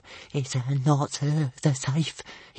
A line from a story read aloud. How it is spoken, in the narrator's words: he whispered